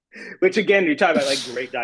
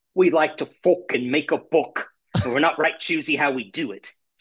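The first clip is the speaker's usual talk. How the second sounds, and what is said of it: Imitates another person's voice. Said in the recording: “my Sean Bean impression”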